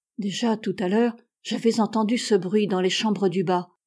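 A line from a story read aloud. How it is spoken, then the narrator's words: Low voice. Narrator (French): dit Milly à mi-voix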